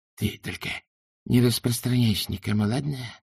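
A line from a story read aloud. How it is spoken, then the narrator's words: Hissed. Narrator (Russian): прошипел Хью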